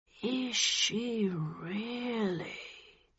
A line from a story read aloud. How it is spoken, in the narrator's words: He said slowly